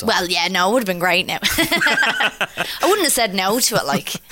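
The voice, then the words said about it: Thick Irish accent. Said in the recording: “the thick Irish accent”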